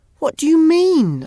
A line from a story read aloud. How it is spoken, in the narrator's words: I shouted